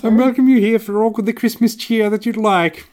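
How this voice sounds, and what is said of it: Imitates the Queen's voice. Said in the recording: “my Queen impression”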